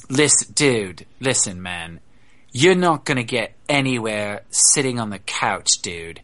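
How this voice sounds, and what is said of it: Half surfer, half London accent. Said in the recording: “he has this like half surfer dude, half London accent. It's really interesting.”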